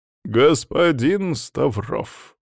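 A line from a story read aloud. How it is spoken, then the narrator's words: Sighing. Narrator (Russian): вздохнул завуч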